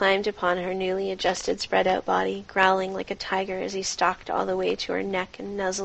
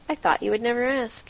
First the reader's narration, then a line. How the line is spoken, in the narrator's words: He chuckled